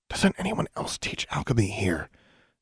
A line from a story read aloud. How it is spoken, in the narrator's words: Alexandra whispered to Anna